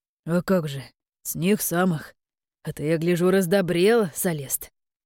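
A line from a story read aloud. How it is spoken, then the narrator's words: Good-natured deep voice, chuckling. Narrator (Russian): Добродушно пробасил Бальжин, усмехаясь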